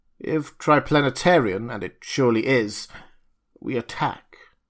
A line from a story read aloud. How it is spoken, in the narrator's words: coldly